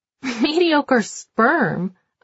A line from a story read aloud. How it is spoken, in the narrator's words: I laugh